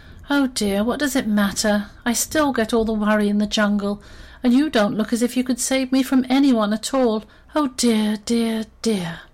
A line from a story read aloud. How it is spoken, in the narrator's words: she just sighed and said